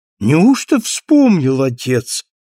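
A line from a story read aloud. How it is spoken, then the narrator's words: Exclaiming daughter. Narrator (Russian): воскликнула его любимая дочка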